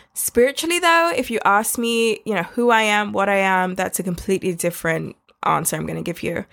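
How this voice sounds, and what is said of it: London accent. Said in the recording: “where this accent came from, I was born in London. I also live in London”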